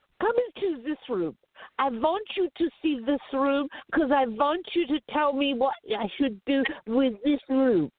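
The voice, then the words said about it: Phony put-on accent. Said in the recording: “he says to me in this phony accent”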